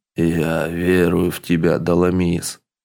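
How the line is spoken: Hoarse rasp. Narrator (Russian): Гвайд прохрипел

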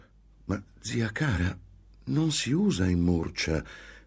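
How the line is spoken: Gentle reply. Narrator (Italian): replicò dolcemente Antonia

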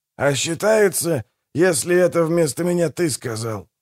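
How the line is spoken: Grumbling mutter. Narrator (Russian): буркнул Манфред

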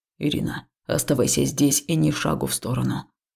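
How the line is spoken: Somewhat rough command. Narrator (Russian): приказал он немного грубо

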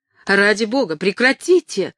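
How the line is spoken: Exclamation. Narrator (Russian): воскликнула Кэтрин

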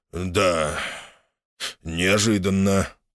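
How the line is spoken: Muttered. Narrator (Russian): пробурчал

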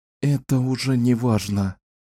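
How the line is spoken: Sighing. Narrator (Russian): вздохнула она

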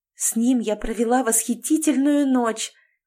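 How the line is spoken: Breathy, dreamy. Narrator (Russian): выдохнула Галя, вспоминая все

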